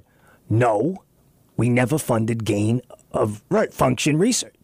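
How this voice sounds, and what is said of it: Impersonation of Fauci. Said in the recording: “That's a good impersonation.”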